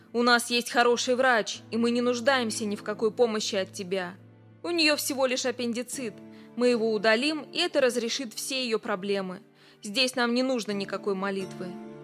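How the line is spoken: Rude reply. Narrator (Russian): грубо ответил его сосед

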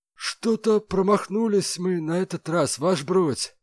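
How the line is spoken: Sad. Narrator (Russian): грустно сообщил он

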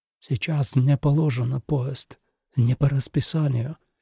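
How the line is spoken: Almost silent whisper. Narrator (Russian): почти беззвучно прошептал Отто

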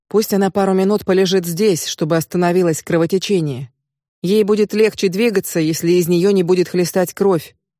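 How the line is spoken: Cold. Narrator (Russian): холодно ответил Ковид

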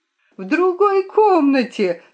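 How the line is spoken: Shouting at full volume. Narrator (Russian): закричала что было мочи

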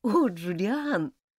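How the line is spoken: Whisper half-laughing, half-crying. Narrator (Russian): полусмеясь, полуплача, прошептала Элизабет

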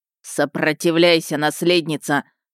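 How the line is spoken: Barked into ear. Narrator (Russian): снова в ухо рявкнул Хантхофер

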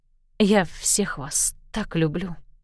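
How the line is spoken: Whisper. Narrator (Russian): прошептала она

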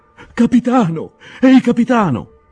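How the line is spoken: Peasant shrieking while running. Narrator (Italian): strillò il bifolco correndo

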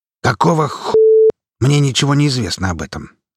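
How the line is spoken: Indignant question. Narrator (Russian): возмущенно поинтересовался директор

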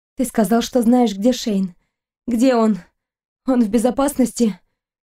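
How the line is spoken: Dry, hoarse voice. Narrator (Russian): Ее голос звучал сухо и хрипло

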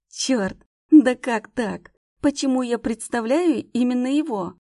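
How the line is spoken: Groaning. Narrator (Russian): Простонала

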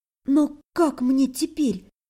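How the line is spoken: Timid whisper. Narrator (Russian): Сразу оробев, прошептала

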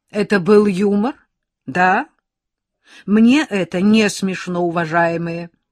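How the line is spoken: Loud question. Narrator (Russian): а ей было не смешно, она громко спрашивала

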